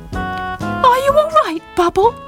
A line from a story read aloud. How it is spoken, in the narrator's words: Squeaked asked anxiously